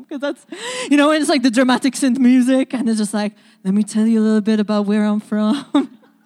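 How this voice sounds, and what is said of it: Hard-to-place Maltese accent. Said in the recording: “my accent is a little hard to place. I'm from the island of Malta.”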